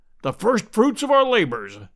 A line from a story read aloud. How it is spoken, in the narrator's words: said Challenger in his booming, pedantic fashion